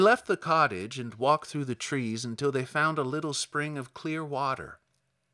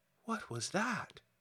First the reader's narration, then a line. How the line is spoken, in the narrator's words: she asked timidly